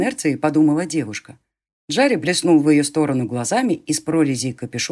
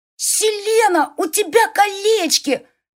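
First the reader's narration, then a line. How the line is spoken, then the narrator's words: Surprised squealing she-wolf. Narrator (Russian): Завизжала волчишка, внезапно и только что заметившая кучу украшений на пальцах девушки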